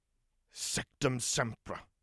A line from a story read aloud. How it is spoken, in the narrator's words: he hissed